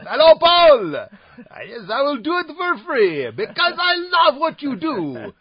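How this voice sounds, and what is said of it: Unconvincing put-on French accent. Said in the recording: “That wasn't a very good French accent. ... Now, that didn't sound French either ... I don't know how to do accents.”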